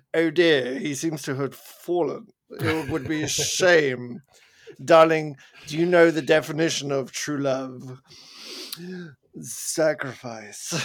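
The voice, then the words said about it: Put-on posh British accent. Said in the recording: “Abbey posh ... British accent in movies”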